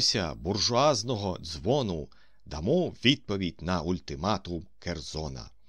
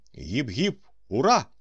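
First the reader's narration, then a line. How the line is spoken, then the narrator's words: Exclaimed. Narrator (Ukrainian): вигукнув Остап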